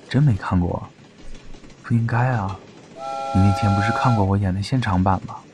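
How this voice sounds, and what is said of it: Low, quiet muttering voice. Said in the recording (Chinese): “嗓音很低，尽量不打扰到前面吻得难分难舍的情侣 ... 小声嘀咕”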